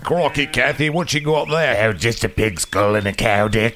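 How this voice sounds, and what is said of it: Put-on accent. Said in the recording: “I'm sorry about my accent.”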